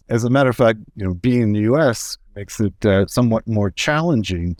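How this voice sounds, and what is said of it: American accent. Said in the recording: “you can tell my American accent”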